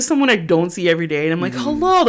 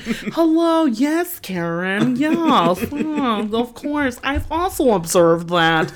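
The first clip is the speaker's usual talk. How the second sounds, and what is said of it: Put-on white girl voice. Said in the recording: “I had my white girl voice on”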